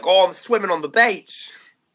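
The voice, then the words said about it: Poor put-on Australian accent. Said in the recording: “Was that an Australian accent? ... It was a pretty poor one.”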